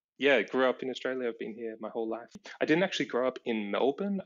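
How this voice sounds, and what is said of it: Mild Australian accent. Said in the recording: “you don't have the Australian accent ... Mild ... I don't have an Ocker accent”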